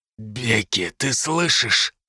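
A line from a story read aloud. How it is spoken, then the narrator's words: Hoarse rasp. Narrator (Russian): прохрипел я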